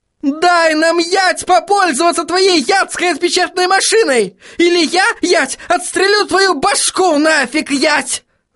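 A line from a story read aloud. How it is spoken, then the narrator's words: Yelling. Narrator (Russian): заорала она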